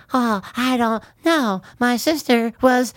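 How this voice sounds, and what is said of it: Creepy imitated movie character voice. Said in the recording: “Stop. Stop doing that voice ... I can never hear that voice again ... The scariest voice”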